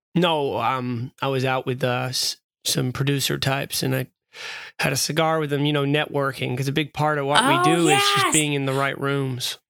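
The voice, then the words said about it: Croaky hoarse voice. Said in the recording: “you can hear it in my voice. I got a croaky hoarse voice”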